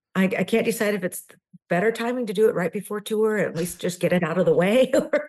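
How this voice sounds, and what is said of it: Voice affected by a cold. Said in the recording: “I'm battling a cold, so please excuse the voice.”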